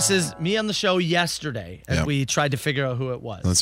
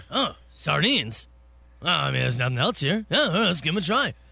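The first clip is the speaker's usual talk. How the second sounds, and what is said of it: Imitates another person's voice. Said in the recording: “let me give you my impression here... you nailed it”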